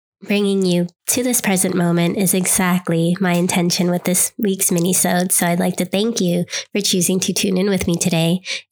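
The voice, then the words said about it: Congested, stuffy-nosed voice. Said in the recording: “I've been battling a cold now for about a week. I'm sure you can hear the congestion in my voice”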